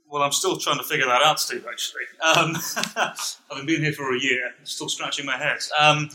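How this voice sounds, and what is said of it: British accent. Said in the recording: “speak with a British accent and sound good ... sounding British”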